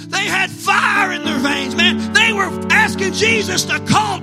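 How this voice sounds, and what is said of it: Usual voice. Nothing is said of it.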